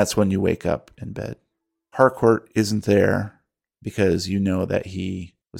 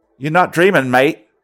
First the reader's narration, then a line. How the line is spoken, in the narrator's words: in your ear, you feel the brush of whiskers and Peter's voice says very loudly